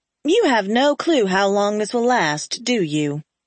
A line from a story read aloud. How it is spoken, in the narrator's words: I asked dryly